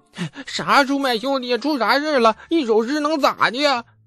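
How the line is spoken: Crying and shouting. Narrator (Chinese): 王直被抽哭了，就直喊呢

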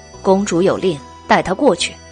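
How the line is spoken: Cold command. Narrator (Chinese): 女士……冷冷的道

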